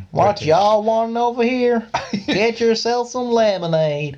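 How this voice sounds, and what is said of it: Put-on Southern American accent. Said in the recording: “but with a real southern accent. ... Oh, I don't think that was too bad. I mean, it was probably terrible.”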